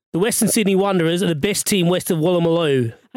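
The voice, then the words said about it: Poor put-on Australian accent. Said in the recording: “read them out in your best Aussie voice ... It's quite shit, actually.”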